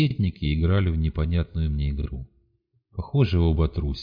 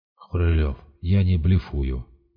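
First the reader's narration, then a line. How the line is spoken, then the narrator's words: Interrupting. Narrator (Russian): перебил Сиплый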